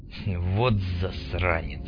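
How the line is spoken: Muttering. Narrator (Russian): пробормотал Мунлайт

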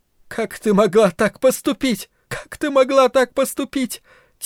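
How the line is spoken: Speaking through tears. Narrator (Russian): Карла говорила сквозь слезы

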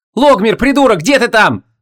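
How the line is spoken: Angry yell. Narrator (Russian): заорала Вон, безуспешно пытаясь разглядеть сквозь стальной вихрь краснокожего закатонца

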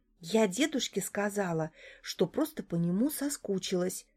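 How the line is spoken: Whisper. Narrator (Russian): шепнула Арина

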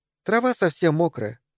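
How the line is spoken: Sad. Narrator (Russian): грустно сказала Мэри

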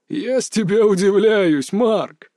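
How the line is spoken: Old man laughing. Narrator (Russian): рассмеялся дед

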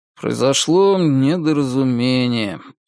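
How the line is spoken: Dull flat voice. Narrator (Russian): тусклым голосом сказал он

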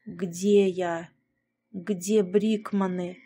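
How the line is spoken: Hoarse pained strain. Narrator (Russian): Хрипло выдавил я из себя, превозмогая мучительную боль в груди

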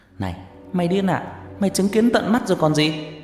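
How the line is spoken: Shouting in face. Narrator (Vietnamese): Phú hét vào mặt Bảo

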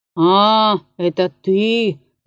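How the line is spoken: Displeased mumble. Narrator (Russian): промычал он недовольным голосом

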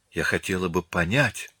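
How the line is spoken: Whispered. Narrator (Russian): прошептала она

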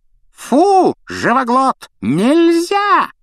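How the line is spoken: Witch's yell. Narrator (Russian): завопила ведьма

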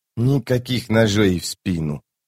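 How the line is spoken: Whisper. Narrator (Russian): прошептал он

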